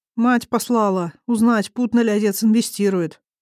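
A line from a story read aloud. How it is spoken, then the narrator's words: Unhappy young man's voice. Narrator (Russian): ожидаемо выложил парень несчастным голосом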